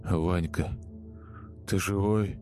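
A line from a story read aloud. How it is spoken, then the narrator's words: Crushed hoarse croak. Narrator (Russian): Убитым голосом прохрипел Олег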